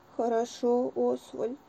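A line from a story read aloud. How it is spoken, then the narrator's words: Sad. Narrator (Russian): печально сказал Маффин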